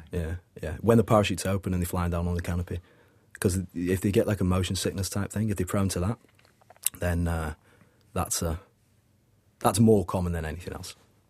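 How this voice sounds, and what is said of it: Manchester English accent. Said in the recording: “That skydiving dude has a great voice. Where's your accent from? ... Manchester.”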